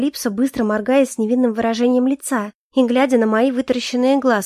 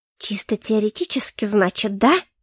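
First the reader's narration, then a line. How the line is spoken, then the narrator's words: Furious hiss through teeth. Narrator (Russian): прошипела я сквозь зубы, яростно сощурившись и сжав руки в кулаки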